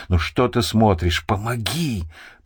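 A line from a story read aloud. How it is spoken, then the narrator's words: Hissed. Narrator (Russian): прошипел Хасан в его сторону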